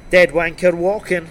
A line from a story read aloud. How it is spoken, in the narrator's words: he chuckled and said